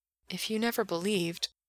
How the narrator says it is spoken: Gerard whispered

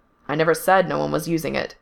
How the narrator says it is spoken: Fungul said, still in that same clipped tone

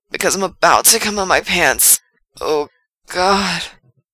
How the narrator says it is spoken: Frank gasps out

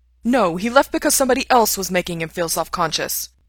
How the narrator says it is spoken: Ray snaps

